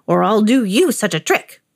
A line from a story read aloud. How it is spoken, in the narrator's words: snapped the old man